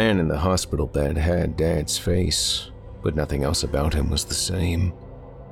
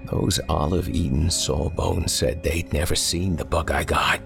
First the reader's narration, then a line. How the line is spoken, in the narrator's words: told me, his voice low